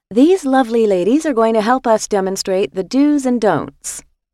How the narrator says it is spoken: said the volunteer brightly

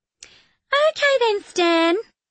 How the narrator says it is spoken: she says brightly, louder now

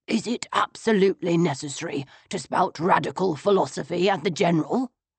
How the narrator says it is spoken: he demanded in a whisper

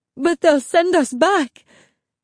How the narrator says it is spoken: Mommy sobbed

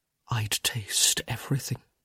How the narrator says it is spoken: he whispered

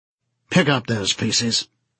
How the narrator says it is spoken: he said sharply

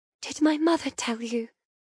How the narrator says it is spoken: ask softly

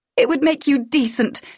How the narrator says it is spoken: she cried

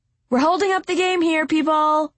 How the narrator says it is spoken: Miss Sully called out

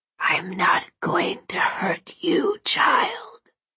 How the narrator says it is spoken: The man whispered in a raspy voice

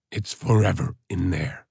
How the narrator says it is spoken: the wild man croaked

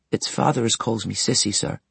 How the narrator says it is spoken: returned the young girl in a trembling voice

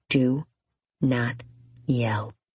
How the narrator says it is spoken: he whispers

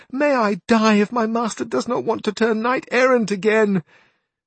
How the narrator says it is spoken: exclaimed the niece

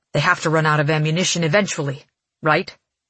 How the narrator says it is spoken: he says dryly

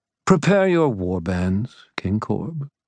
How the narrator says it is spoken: Ethneu said in a placating tone

